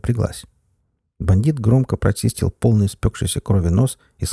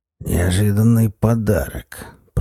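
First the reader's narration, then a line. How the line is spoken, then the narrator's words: Hoarse rasp. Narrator (Russian): прохрипел Зуза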